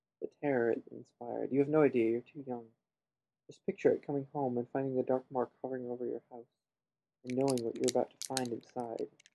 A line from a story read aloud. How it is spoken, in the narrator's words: said Mr